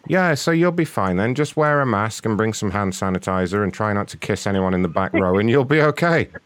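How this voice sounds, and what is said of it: London accent. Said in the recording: “I like your accent ... I'm from London originally”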